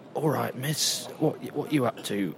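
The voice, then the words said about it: Put-on Cockney accent. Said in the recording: “In a kind of Cockney accent, obviously.”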